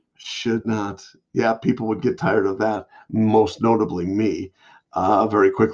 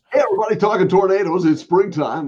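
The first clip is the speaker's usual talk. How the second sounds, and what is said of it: Radio announcer voice. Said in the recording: “you have a radio voice”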